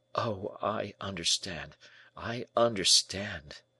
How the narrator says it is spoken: murmured the young man

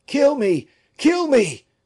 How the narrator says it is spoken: cried Fouquet

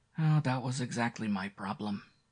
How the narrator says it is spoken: Carlos said sadly

